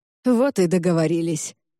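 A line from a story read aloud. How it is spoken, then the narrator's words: Amused snort. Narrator (Russian): хмыкнул Брайан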